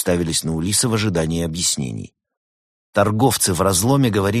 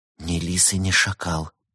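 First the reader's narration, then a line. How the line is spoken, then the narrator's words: Whisper. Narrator (Russian): прошептала Берта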